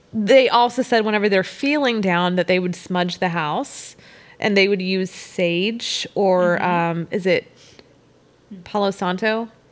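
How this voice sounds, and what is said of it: Southern Texan accent on some words. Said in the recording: “my accent. My accent is so atrocious. ... the Southern comes out in me in certain words. ... that is completely a Texan accent. ... it's only with certain words.”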